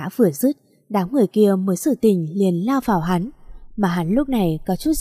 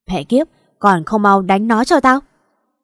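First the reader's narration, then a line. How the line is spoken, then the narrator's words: Angry shout. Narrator (Vietnamese): gã quát lên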